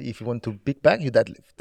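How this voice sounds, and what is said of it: Put-on Italian accent. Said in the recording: “With the Italian accent.”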